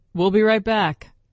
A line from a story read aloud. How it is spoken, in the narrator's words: he called out to Stefan